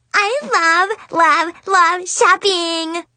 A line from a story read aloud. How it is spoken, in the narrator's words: Amanda squealed